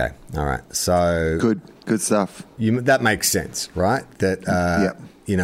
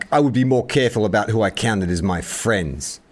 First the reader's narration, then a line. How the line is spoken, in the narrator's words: snaps back